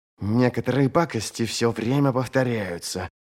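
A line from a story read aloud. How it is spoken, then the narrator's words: Mutter. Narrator (Russian): пробормотала она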